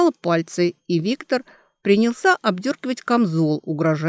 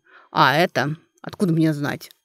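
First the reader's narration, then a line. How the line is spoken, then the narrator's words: Grumbled. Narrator (Russian): проворчал Виктор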